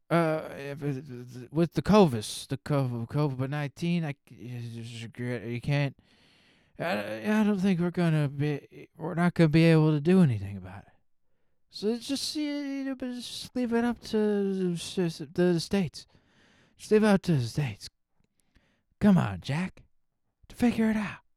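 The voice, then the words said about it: Impression of President Biden. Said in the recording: “President Biden's like ... I'll do an impression.”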